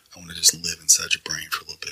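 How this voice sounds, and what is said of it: Creepy, intimate voice in your ear. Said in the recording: “Dude, don't talk to me like that... You sound like a pedophile... With this voice in your brain.”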